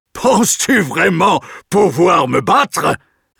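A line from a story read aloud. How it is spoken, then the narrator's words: Sneering. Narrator (French): ricane Goliath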